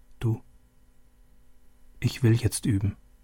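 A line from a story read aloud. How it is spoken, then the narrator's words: Softly. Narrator (German): Leise sagte sie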